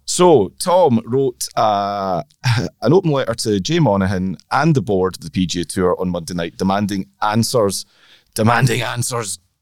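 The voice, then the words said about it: Tired, hoarse, gravelly voice. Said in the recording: “with my tiredness and generally having shouted and screamed at Georgians all last night, I've got a bit of a Tom Watson timbre going on in my voice at the moment”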